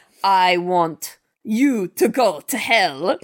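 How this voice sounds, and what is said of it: Imitated voice sounding like Dracula. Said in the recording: “your best Arnold Schwarzenegger impression? ... It sounds like Dracula.”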